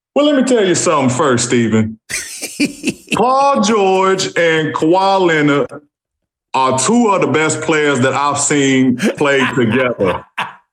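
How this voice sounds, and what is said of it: Charles Barkley impression. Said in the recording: “answer that question in a Charles Barkley imitation ... a pretty good Charles Barkley imitation”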